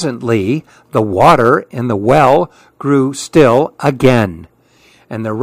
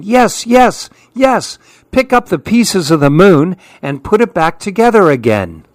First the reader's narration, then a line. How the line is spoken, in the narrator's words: All the other monkeys started yelling